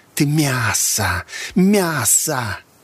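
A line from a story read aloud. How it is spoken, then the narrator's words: Hissing, several voices. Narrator (Russian): Ее товарищи-миссионеры тоже зашипели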